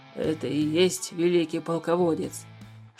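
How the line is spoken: Whispered question. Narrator (Russian): шепотом спросил Тулис у Туупаня

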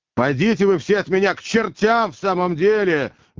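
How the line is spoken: Rude shout. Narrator (Russian): грубо закричал Иван

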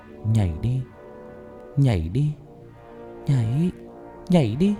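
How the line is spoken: Eerie whisper. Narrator (Vietnamese): Những bóng trắng thì thầm vào tai nó

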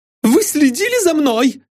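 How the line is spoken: Shouting. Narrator (Russian): закричала она

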